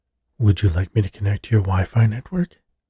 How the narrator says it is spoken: the vacuum asked in a somewhat sultry female voice

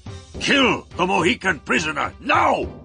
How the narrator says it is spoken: he shouted

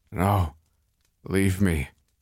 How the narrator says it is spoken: he groaned

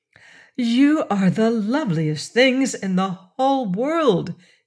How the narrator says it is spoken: she cried

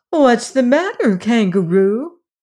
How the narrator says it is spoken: Dorothy cried out with ready sympathy

